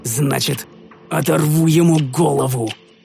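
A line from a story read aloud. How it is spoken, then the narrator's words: Low growl. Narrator (Russian): Прорычал я тихо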